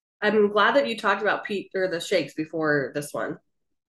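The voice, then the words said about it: Sarcastic tone. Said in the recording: “I'm being sarcastic.”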